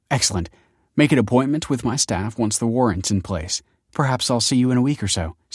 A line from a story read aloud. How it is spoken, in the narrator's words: said Kelsey